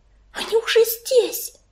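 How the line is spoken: Whisper. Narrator (Russian): прошептала Белочка

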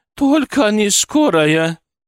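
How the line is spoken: Tearful pleading. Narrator (Russian): она взмолилась, и в ее глазах блеснули слезы

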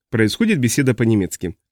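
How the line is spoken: Plain. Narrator (Russian): ответил Авелинг

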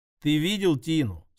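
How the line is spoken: Plain. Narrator (Russian): спросил я

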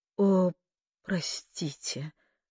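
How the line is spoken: Flustered gasp. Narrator (Russian): растерянно выдохнула она

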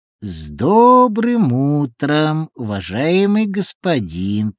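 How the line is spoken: Drawling little man. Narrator (Russian): протянул человечек

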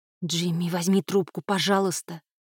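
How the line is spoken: Pleading. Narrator (Russian): взмолилась она

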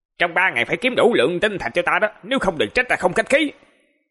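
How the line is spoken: Somewhat loud, arguing. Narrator (Vietnamese): thanh âm có vài phần to tiếng

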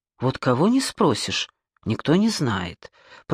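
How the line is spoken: Muttering. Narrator (Russian): пробормотал

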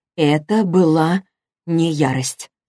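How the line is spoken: Slow. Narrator (Russian): произнесла она медленно

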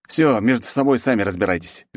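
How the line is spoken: Barked. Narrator (Russian): рявкнул я

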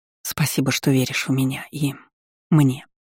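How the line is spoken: Whispered. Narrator (Russian): прошептала

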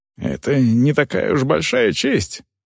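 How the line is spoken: Whisper. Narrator (Russian): шепнул Торвик Варгу

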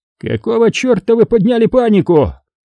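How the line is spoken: Yelled. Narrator (Russian): заорал с порога на начальника станции Гауптман

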